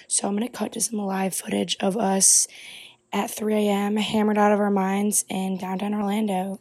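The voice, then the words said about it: Hoarse, nearly lost voice. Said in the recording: “I literally sound like an absolute dead man... I lose my voice.”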